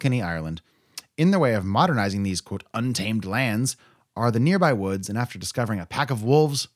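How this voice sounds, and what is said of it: Usual voice. Nothing is said of it.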